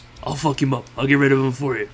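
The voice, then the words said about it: Poor yakuza gangster impersonation. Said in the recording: “like a yakuza ... excuse me for the shitty impersonation”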